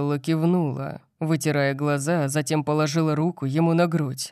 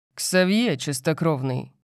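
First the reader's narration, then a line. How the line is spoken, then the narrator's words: Growl. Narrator (Russian): прорычал Лайонел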